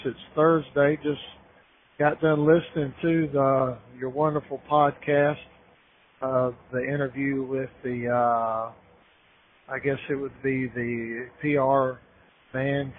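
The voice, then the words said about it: Slightly hoarse voice. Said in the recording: “my voice is still a little hoarse.”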